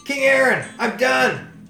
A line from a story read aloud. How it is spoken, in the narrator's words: Adam shouted